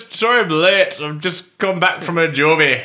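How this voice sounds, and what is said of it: Put-on Scottish accent. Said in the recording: “the commentator in Scotland ... do you want to do the accent?”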